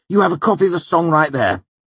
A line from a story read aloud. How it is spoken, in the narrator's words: Ambrose said hotly